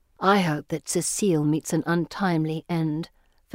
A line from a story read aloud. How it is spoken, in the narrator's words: Felicity whispers to me